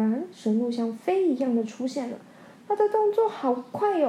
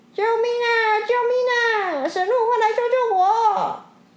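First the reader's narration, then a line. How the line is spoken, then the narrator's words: Loud feigned cry for help. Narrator (Chinese): 蛇医假装自己快要淹死了，再大声喊着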